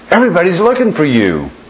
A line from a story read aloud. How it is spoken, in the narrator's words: they exclaimed